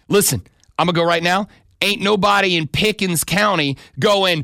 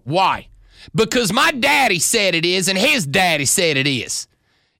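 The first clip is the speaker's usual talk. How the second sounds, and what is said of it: Put-on local Pickens County accent. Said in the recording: “That was definitely a Pickens accent.”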